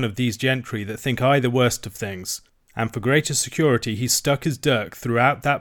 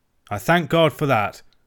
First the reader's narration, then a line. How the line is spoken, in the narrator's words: cried I